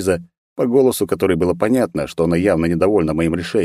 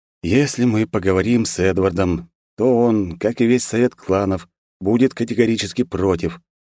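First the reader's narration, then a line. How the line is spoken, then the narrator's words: Heavy sigh, explaining patiently. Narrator (Russian): тяжело вздохнув, пояснил я, вроде как элементарные вещи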